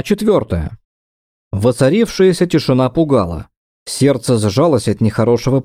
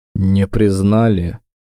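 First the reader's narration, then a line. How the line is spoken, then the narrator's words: Calm question. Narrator (Russian): спокойно поинтересовался Дакар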